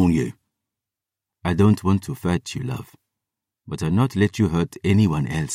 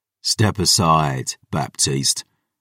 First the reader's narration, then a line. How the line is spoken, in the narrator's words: Aaron growled